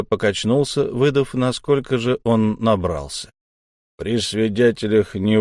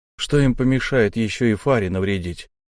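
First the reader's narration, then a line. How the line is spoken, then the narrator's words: Plain. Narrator (Russian): наконец сказал я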